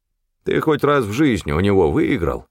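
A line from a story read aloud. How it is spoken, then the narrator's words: Grumbling. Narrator (Russian): пробурчал Стефан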